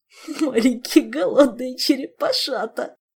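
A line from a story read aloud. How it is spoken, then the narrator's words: Moaning. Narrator (Russian): простонал Аллен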